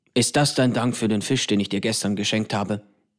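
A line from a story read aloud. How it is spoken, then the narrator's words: Grumbling. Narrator (German): brummt Sokwe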